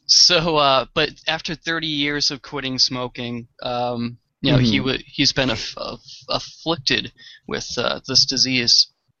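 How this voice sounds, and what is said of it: Boston accent. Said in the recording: “I just don't speak Boston ... Maybe I'm tripping over my accent.”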